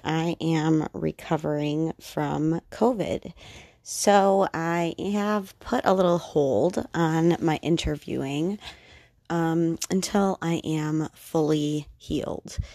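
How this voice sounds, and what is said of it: Voice still recovering from illness. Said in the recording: “As you can probably tell, my voice is recovering.”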